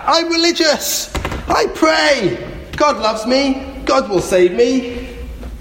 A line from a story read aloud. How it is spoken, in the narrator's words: The man shouted back